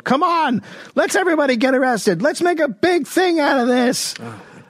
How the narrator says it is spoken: A woman yelled

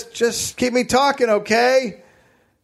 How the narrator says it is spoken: Sanders yells

